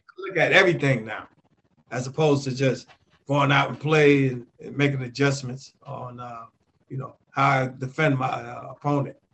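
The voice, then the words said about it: Slightly cracking voice from a cold. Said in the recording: “I'm a little under the weather, so my voice is probably cracking a little ... I got a slight little cold there.”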